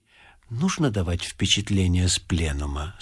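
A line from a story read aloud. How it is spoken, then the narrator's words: Very quiet question. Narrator (Russian): спросил он очень тихо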